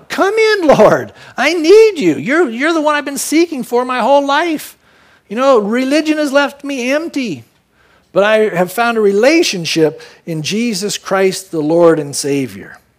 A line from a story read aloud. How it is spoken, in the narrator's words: She probably cried out